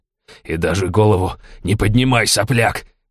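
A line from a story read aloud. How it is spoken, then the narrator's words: Growled with feigned anger. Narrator (Russian): рычал дядя Федор, но Семен чувствовал, что его злость напускная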